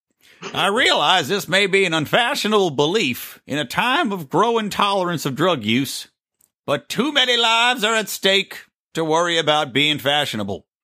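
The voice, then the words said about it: Put-on old man voice. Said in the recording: “I don't have a Jeff Sessions impression, but I'll just do an old man voice.”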